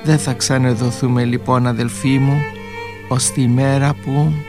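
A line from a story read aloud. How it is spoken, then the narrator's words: Quiet. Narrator (Greek): Σιγά ο Αλέξιος της είπε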